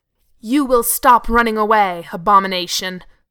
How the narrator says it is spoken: the angel growled at him

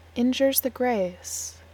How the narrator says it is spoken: Cass said

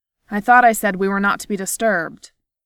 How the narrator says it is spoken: he snapped

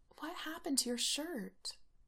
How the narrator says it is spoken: Allison murmurs in her ear

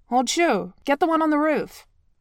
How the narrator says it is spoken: Zhang Lin barks

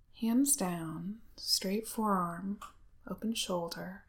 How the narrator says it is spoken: he says softly

